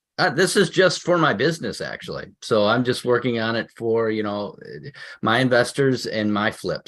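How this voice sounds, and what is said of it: Chicago accent. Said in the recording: “I can tell by your accent, you're legitimate Chicago”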